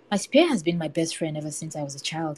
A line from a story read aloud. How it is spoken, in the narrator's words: he said